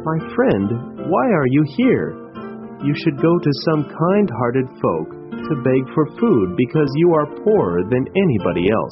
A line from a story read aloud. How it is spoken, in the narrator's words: The beggar said sadly